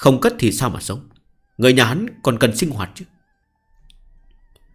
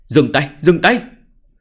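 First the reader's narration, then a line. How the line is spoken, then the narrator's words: Anxious frantic shouting. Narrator (Vietnamese): Thiệu Liễu Nhi sốt ruột hò hét, sợ đối phương hạ độc thủ với hải tử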